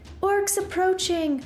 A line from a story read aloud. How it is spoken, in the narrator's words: Opal cried